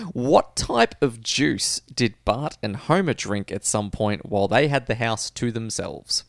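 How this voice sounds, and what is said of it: Usual voice. Nothing is said of it.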